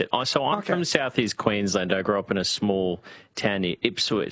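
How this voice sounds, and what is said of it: Broad Australian bogan twang. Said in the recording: “I've got a bit of a bogan twang to me ... I can't say the word Boona without sounding like, yeah, Boona”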